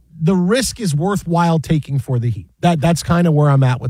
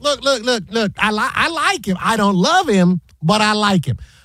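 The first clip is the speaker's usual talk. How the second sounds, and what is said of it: Imitates another person's voice. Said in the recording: “my Chris Broussard impression”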